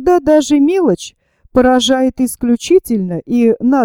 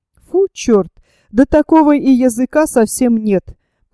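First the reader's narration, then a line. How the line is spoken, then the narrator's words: Laughing. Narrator (Russian): продолжал смеяться Николас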